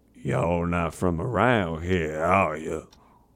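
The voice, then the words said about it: Put-on American Southern accent. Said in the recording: “classic southern accent”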